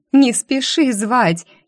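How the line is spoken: Giggling. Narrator (Russian): хихикнула я

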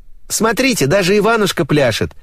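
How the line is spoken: Cheerful shout. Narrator (Russian): весело крикнула Алена

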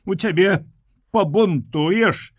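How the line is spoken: Loud open laughter. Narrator (Belarusian): гучна і адкрыта засмяяцца

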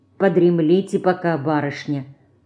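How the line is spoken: Quiet. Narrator (Russian): Герасим тихо сказал

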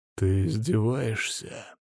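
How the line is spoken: Low growling indignation. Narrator (Russian): низким рычащим голосом возмутился Ярослав

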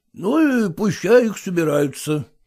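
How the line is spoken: Gloomy. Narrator (Russian): мрачно ответил Филат

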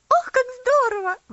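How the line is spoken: Exclamation. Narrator (Russian): воскликнула Луси

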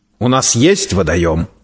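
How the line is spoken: Authoritative, brooking no argument. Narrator (Russian): непререкаемым тоном заявил градомейстер

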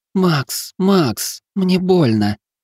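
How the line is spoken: Moaning in pain. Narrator (Russian): простонала женщина

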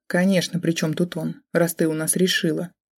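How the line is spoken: Sarcastic snort, mother. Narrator (Russian): хмыкнув, съязвила мама

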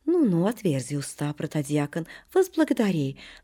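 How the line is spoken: Affectionate. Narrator (Russian): ласково говорит Преосвященный

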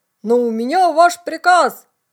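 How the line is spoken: Loud repetition. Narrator (Russian): громко повторил бравый капитан

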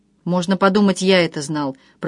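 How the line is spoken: Grumbling. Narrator (Russian): пробурчал Егор

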